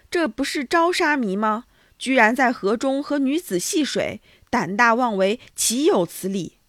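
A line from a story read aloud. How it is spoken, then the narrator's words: Shocked, disgusted shouting. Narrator (Chinese): 僧人，他们发出惊讶而憎恶的大声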